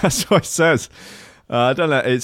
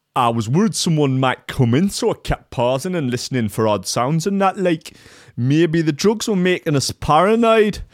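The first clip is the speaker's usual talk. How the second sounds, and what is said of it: Put-on Geordie accent. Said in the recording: “It's not implied that it's a Geordie accent, but we'll stick with it.”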